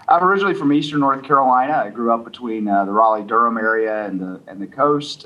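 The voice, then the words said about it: Southern American accent. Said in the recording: “So does the Southern accent throw people off in the West? ... Quite often the Southern accent will throw people off ... people pick it out pretty quickly.”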